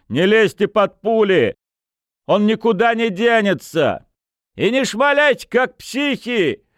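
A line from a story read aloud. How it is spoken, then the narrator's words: Shouting from cover. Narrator (Russian): выкрикнул из-за поленницы луговец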